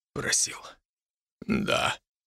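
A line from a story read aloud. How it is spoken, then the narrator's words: Whisper. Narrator (Russian): прошептал Матиас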